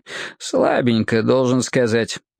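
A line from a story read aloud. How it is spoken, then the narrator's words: Snort. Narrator (Russian): хмыкнул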